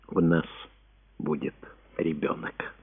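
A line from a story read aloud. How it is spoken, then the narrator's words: Quiet and proud. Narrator (Russian): сделала глубокий вздох и произнесла тихо и с гордостью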